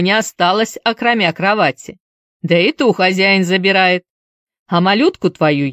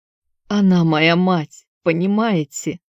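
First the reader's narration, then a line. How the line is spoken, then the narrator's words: Hoarse whisper. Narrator (Russian): ответил он хриплым шепотом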